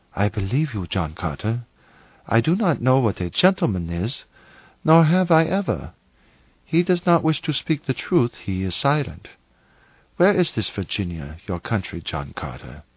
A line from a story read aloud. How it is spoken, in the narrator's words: with a sigh, she whispered